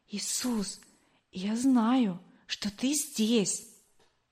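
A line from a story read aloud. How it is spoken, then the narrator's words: Whisper. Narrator (Russian): я шептала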